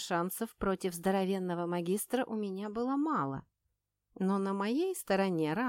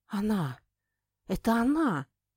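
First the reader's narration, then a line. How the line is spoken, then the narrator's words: Muttering. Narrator (Russian): пробормотал Робер Хартен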